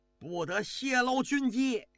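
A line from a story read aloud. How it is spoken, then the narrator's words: Shout. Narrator (Chinese): 高欢冲着这个狱警就喊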